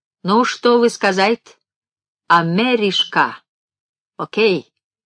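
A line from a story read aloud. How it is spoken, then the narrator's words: Sly, German-accented Russian. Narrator (Russian): сказал хитро с немецким акцентом по-русски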